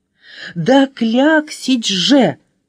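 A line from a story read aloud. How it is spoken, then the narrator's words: Exclaiming letter. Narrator (Russian): воскликнула буква А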